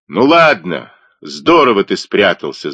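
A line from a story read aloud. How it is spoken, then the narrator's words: Yelling. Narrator (Russian): заорал он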